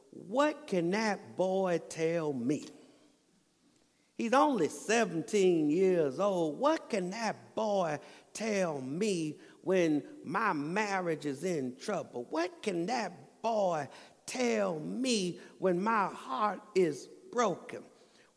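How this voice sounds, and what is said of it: Imitates another person's preaching voice. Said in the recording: “you know I'm doing a pretty good impression of E.V. Hill”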